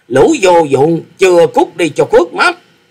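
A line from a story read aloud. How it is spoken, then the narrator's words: Old man's roar. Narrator (Vietnamese): Lão già áo xanh chính là Tử Vong cốc chủ Phạm Long, quát lớn nói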